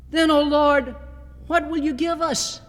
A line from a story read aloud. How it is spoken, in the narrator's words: the preacher cried out